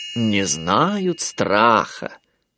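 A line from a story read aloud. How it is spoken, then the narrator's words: Drawling. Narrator (Russian): протянула Малли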